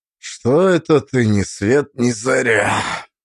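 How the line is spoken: Hoarse, low, sleepy voice. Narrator (Russian): Прохрипел, а голос после сна был низким и шершавым

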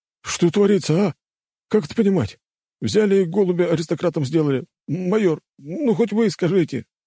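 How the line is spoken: Pleading. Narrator (Russian): взмолился тот

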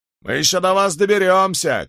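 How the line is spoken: Shouting after them. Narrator (Russian): кричали им вслед

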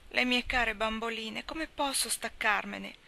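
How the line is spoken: Anguished maternal moan. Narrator (Italian): gemette Desi, con espressione di angoscia materna

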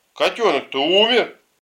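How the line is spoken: Child shouting. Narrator (Russian): Но кто-то из ребят закричал

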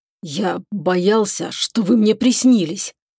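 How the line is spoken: Hoarse confession. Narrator (Russian): хрипло признался Чебуран

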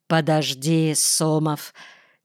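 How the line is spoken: Quiet elderly man. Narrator (Russian): тихо сказал малорослый пожилой надзиратель

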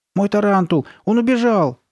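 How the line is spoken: Shouted. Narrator (Russian): кричал Стив

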